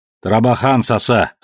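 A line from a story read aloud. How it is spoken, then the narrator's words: Snapping. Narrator (Russian): огрызнулся тот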